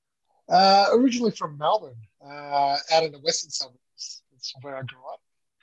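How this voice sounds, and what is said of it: Australian accent. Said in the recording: “we do hear a bit of an Australian accent there”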